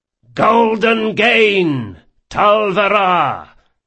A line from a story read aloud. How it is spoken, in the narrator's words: came the return shout from the galleon's waist